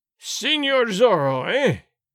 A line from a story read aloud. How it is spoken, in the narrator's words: Gonzalez cried in a terrible voice